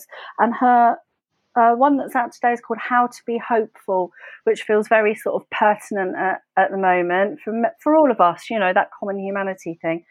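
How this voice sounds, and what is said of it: Hyper, excitable energetic voice. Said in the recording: “you can hear I'm a little bit hyper, can't you? My voice is like rah, rah, rah.”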